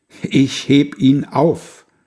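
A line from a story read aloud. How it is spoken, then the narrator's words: Loud call. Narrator (German): er ruft's mit lauter Stimme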